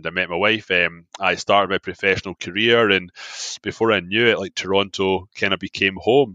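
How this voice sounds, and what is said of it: Scottish accent. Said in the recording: “Scottish guy living in Toronto ... Your accent is so lovely.”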